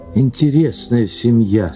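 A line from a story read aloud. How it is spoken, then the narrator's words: Plain. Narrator (Russian): сказал Белокуров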